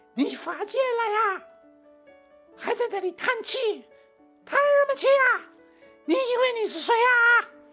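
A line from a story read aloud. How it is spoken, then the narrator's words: Furious, shrill scolding. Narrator (Chinese): 怒不可遏呀，声音极为尖锐，而且不停的痛骂下去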